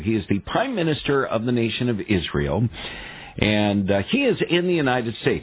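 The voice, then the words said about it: American English accent. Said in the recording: “my American English accent”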